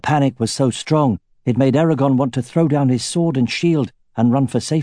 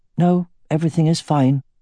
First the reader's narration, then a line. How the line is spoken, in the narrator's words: he said as evenly as he could